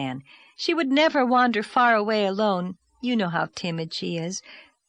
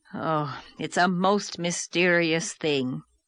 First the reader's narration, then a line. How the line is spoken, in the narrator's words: groaned Marilla